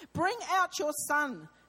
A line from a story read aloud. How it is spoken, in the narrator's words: they shouted to Joash